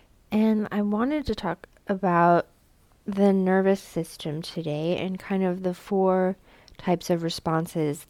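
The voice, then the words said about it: Stuffed-up, congested voice. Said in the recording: “It is officially allergy season for me, so if I sound stuffed up, that is why.”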